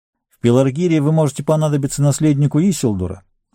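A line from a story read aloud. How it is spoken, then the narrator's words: Plain. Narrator (Russian): сказал Арагорн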